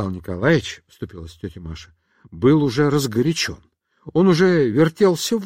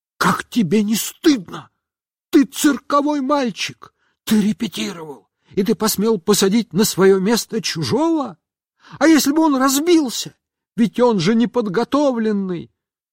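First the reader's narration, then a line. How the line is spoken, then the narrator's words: Shouted whisper. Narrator (Russian): она закричала шепотом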